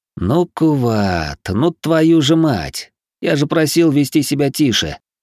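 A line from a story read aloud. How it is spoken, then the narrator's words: Sighing. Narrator (Russian): вздохнул я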